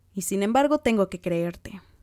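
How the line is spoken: Exclaiming. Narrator (Spanish): exclamó Jane

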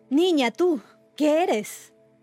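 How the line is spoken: Mother shouting. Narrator (Spanish): gritó la madre

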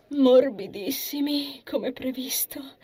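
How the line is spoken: Relieved sigh. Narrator (Italian): Sospirò di sollievo

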